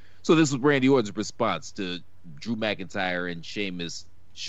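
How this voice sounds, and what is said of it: Usual voice. Nothing is said of it.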